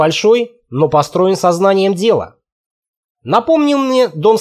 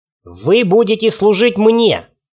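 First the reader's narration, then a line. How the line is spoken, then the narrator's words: Through gritted teeth. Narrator (Russian): процедил он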